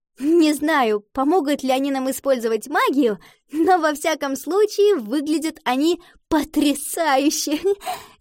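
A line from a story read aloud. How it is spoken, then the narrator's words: Laughing. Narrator (Russian): засмеялась Ива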